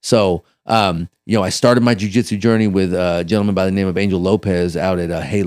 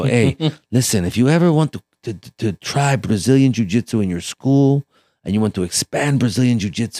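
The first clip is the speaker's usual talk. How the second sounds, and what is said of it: Put-on Brazilian accent. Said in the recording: “he's got that Brazilian accent”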